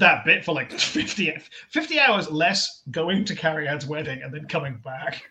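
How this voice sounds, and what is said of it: Usual voice. Nothing is said of it.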